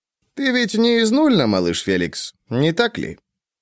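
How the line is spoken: Calm friendly concerned. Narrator (Russian): Хеф разговаривал спокойно и дружелюбно, как будто был искренне обеспокоен устранением недопонимания

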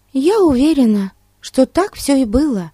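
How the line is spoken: Exclaiming. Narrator (Russian): воскликнула Дейзи

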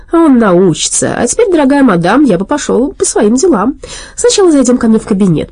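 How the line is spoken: Smug. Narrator (Russian): доктор Ди сказал самодовольно

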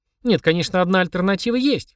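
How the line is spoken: Wry snort, mother. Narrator (Russian): хмыкнула мама

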